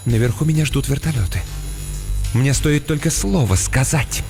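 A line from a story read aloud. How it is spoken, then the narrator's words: Slightly trembling whisper. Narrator (Russian): Мисс Каммингс слегка дрожащим голосом прошептала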